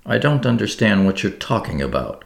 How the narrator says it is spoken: cried Zia angrily

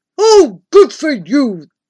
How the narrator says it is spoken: the voice rumbled in my ear

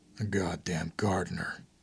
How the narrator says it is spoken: Under his breath, Robert said

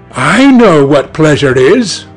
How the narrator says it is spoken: cried Dorian Gray

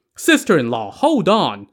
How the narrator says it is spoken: Sun Li shouted

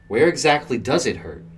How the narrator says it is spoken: I asked

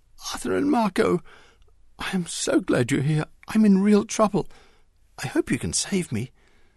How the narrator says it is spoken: Mary gasped through her tears

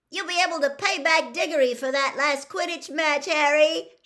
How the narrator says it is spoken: shrieked Katie Bell

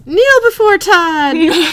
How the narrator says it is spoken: Todd screams

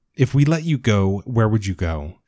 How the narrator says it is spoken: asks

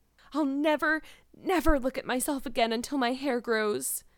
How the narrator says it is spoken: she exclaimed passionately

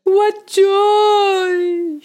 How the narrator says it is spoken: shrieked Mooer

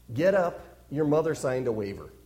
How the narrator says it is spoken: another coach also saying under his breath

